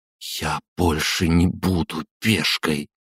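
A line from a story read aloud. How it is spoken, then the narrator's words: Through gritted teeth. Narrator (Russian): процедила Маша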